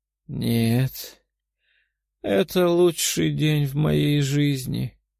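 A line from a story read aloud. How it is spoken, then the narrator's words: Happy moan. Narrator (Russian): простонала она, а лицо сияло от счастья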